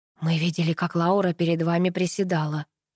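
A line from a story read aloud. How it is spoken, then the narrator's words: Hoarse rasp. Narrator (Russian): прохрипел Паша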